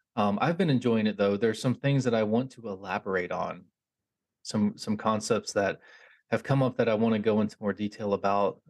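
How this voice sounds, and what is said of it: Slightly hoarse voice. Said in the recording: “my voice is like ever so slightly hoarse”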